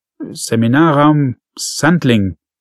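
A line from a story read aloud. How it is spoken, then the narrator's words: Stuttering. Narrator (German): stotterte der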